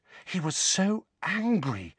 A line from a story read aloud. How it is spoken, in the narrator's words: said Hermione, in an almost awestruck voice